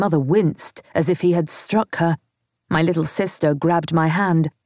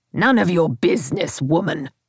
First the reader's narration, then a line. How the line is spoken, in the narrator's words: he spat out the words